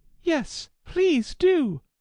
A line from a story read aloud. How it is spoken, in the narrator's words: pleaded Alice